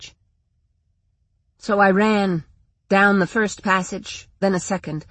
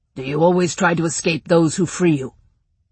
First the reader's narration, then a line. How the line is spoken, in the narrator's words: the rider growled under his breath